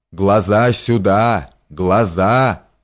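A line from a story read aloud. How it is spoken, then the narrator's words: Muffled, menacing exclamation. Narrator (Russian): воскликнул Капелиус глухим и грозным голосом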